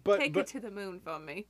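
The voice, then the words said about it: Unneeded put-on British accent. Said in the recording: “You keep adding this accent that's not there. The whole world's not British.”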